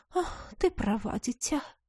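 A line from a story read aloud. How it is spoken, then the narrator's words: Sigh, feigned motherly care. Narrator (Russian): Вздохнула визитерша, продолжая изображать заботливую мамочку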